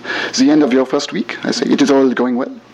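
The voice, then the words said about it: Put-on French accent. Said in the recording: “French accent”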